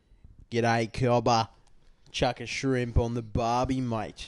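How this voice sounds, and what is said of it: Convincing put-on Australian accent. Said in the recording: “do an Australian accent ... That's pretty good, man. You sound Australian. ... it's like you come from here.”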